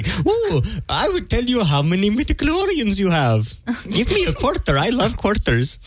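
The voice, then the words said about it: Put-on fortune-teller accent. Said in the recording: “Where's that Indian accent come from? ... That is not an Indian accent. ... That gypsy accent from that game.”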